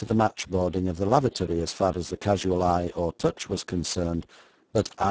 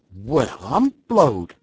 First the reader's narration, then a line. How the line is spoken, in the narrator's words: exclaimed he